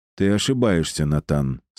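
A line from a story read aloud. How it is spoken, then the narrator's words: Calm. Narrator (Russian): спокойно ответил Кирилл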